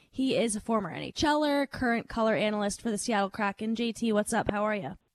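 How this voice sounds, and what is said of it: Hoarse, fading voice. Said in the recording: “I feel like I'm losing my voice here ... Lost my voice.”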